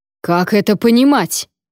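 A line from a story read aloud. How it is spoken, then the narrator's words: Roar. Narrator (Russian): взревел Вонвальд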